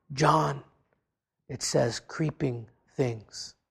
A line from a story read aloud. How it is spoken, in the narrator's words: a friend whispered